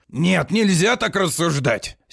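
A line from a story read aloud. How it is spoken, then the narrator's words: Angry. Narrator (Russian): сердито вскакивал на ноги Листер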